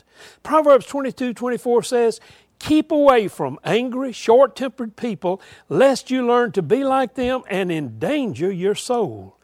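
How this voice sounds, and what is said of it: Southern accent. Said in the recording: “I speak with a Southern accent”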